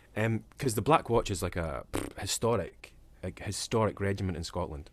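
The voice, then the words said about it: Dundonian Scottish accent. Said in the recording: “the east coast of Scotland where I'm from. So my accent is Dundonian”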